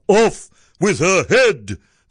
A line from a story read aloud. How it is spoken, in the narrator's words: the prince roared back